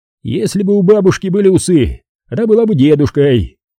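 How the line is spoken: Laughing. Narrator (Russian): сказал Харевич и тоже засмеялся

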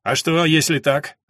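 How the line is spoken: Snapping back. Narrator (Russian): огрызнулся тот

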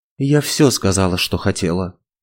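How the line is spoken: Grumbled mutter. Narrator (Russian): буркнул

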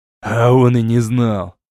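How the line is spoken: Angry volcano voice. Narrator (Russian): зло сказал вулкан

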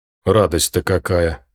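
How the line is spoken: Feigned snort. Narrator (Russian): притворно хмыкнул Том

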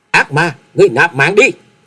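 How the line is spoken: Uncontrolled loud shout. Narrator (Vietnamese): Nàng không thể kềm chế nổi bản thân, hét to lên một tiếng nói

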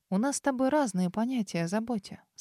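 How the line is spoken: Calm reply. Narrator (Russian): спокойно ответила ему

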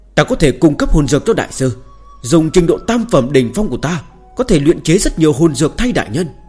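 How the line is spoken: Quick loud shout. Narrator (Vietnamese): Chu Nhất Tinh lập tức hét lớn

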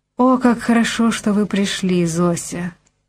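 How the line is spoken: Weak voice. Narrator (Russian): слабым голосом сказала миссис Барк

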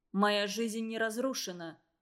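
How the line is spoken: Cold remark. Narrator (Russian): холодно заметил математик

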